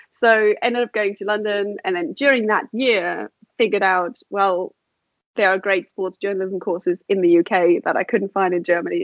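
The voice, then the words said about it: Mixed accent, sounds South African. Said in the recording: “I was going to guess South African, but you never know. And there's a little of everything.”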